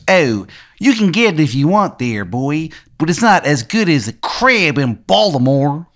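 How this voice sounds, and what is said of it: Bad put-on Maryland accent. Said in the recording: “What is that accent? ... Accent is so bad. It's like it's almost as if he doesn't know how to do a Maryland accent.”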